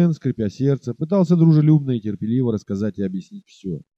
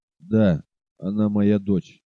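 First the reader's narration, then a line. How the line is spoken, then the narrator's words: Trembling voice. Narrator (Russian): повторил дрогнувшим голосом Сиген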